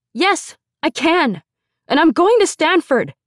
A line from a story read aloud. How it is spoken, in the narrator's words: I yelled from underneath the dining table